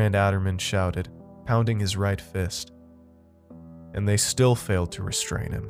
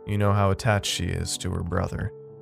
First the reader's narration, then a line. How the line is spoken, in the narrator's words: Seneca chuckled awkwardly